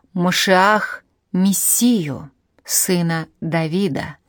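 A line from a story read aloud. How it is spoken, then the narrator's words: Plain. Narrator (Russian): сказал ешеботник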